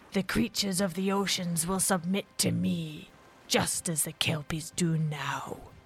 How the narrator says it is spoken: snarled the monster

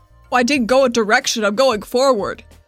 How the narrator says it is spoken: she yells as she's running towards the door

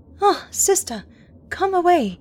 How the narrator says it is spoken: she cried

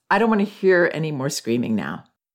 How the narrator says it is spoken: I said in an even tone

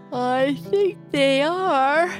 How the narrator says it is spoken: said with a great big yawn

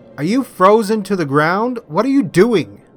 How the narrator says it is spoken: Seamus called out

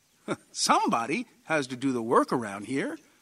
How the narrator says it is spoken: John said cheerfully

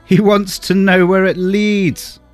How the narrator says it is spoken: he shouted to some men on the hillside

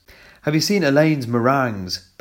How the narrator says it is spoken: yelped with excitement

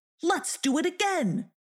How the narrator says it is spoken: cried Snatcher

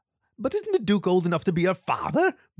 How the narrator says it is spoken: Bronwyn giggled

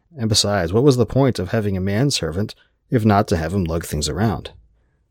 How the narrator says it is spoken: Hatherley sighed

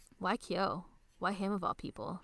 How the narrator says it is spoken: she asks

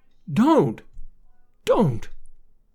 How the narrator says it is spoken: sobbed piteously ... and muttering

